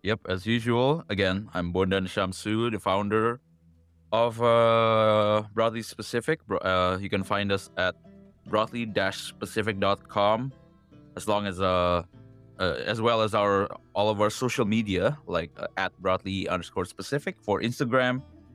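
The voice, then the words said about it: Electronically altered voice-changer voice. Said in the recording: “I'm still using the voice changer”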